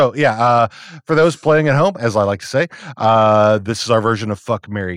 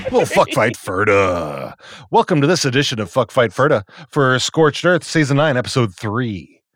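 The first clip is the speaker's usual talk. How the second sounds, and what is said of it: Movie-trailer announcer voice. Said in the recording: “Nice movie phone accent.”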